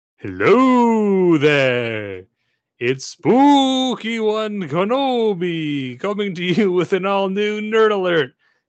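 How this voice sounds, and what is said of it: Spooky character voice. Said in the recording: “It's my spooky voice.”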